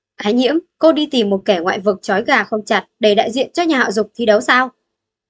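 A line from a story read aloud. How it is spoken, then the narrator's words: Loud laughter. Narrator (Vietnamese): Giản Đào cười lớn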